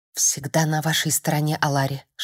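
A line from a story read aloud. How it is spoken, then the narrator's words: Whisper. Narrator (Russian): шептал Люсьен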